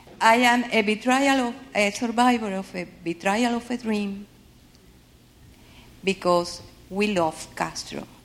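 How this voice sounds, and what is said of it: Cuban Spanish accent in English. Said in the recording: “I have to apologize for my accent. I am Cuban.”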